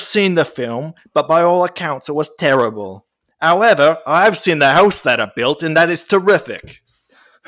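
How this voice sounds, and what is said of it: Poor actor impression, sounding Australian. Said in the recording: “the worst Michael Caine accent ever ... I like how your Michael Caine's a bit Australian. You have sort of an Australian Michael Caine.”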